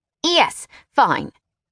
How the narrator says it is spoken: he sputtered

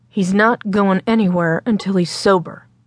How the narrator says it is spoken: Will repeated more firmly

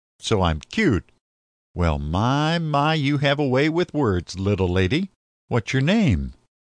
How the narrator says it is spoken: laughed

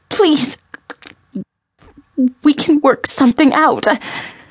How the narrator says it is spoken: Rain begged

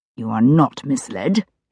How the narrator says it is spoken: he said through clenched teeth

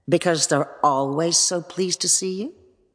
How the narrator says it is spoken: said Brandon

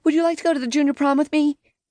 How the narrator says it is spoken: took a deep breath, and blurted

